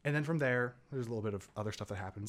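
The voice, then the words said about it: Talking very fast. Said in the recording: “I'm talking so fast”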